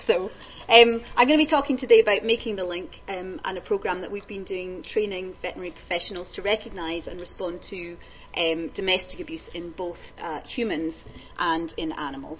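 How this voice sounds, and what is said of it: Scottish accent. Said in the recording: “I hope you understand Scottish as well, because I only have the one accent.”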